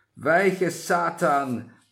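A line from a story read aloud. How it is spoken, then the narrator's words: Sudden thundering voice. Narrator (German): näherte sich da plötzlich eine donnernde Stimme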